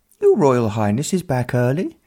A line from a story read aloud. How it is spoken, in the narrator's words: one of the equerries piped up